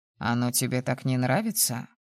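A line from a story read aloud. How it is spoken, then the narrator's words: Skeptical snort. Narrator (Russian): хмыкнул мой собеседник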